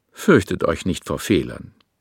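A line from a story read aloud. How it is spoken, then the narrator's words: Calm explanation. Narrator (German): erklärte er ruhig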